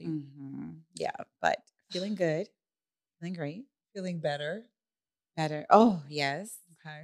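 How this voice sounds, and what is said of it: Slightly raspy recovering voice. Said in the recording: “My yeah. voice is coming back a little bit, but yeah. it's still a little raspy. It's a little raspy.”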